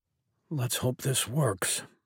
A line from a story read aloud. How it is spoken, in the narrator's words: muttered